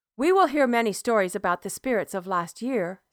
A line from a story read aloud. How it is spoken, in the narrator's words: said Mother